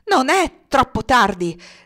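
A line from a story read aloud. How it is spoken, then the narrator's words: Passionate shout. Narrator (Italian): gridò Alex con passione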